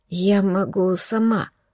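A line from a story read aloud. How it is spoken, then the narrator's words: Croaked. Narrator (Russian): хрипнула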